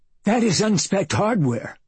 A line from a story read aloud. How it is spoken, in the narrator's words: he shouted hoarsely